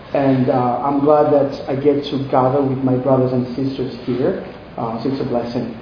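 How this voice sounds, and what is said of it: Central African accent. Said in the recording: “If you can hear my accent, you can probably tell I'm not from here. I'm from the Congo, Central Africa.”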